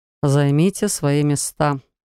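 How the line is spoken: Weary male sigh. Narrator (Russian): вздохнул мужчина

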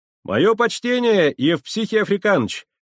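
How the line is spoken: Shouted from window. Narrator (Russian): крикнул я, высовываясь из окошка

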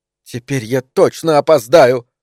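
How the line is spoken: Exclamation. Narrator (Russian): воскликнула она

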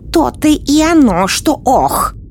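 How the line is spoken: Angry exclamation. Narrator (Russian): сердито воскликнула колдунья

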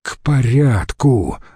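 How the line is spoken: Sigh. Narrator (Russian): вздохнул Марцелл-младший

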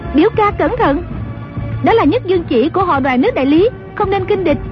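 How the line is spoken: Crying out. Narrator (Vietnamese): Dương Ngữ Yên la lên

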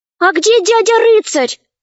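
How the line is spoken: Exclamation. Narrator (Russian): воскликнула одна из них

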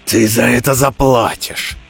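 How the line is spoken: Roar. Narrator (Russian): проревел Горец

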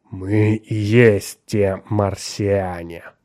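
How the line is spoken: Slow hissing voice. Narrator (Russian): медленно произнес шипящий голос другого

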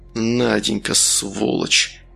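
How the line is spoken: Quiet. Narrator (Russian): тихо сказал он

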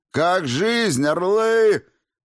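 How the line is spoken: Barking shout. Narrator (Russian): гаркнул я

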